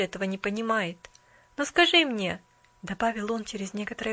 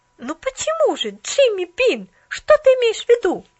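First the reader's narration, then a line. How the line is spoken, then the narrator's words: Exclamation. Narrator (Russian): воскликнула Поллианна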